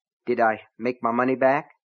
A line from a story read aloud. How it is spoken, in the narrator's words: Keaton asked anxiously